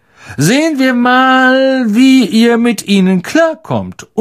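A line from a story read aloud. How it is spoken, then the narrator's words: Loud. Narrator (German): sagte Lockhart laut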